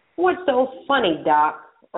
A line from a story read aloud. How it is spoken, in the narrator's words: Earl snapped